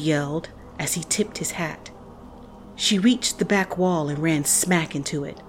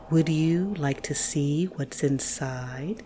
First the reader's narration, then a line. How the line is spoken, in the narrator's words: His voice was smooth and syrupy